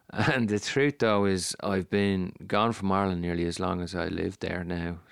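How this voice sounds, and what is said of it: Irish accent with American influence. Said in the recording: “That is my Irish voice ... they'd probably say I sound like an Irish fella speaking like a Yank”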